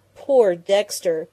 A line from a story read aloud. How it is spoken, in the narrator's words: Penny groaned, covering her convulsed face with her hands